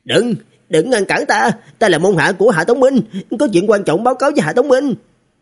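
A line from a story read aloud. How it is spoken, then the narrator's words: Crying out. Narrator (Vietnamese): có người kêu lên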